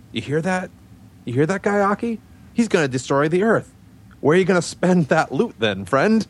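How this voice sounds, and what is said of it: Spider-Man character voice impression. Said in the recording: “I'll give my impression”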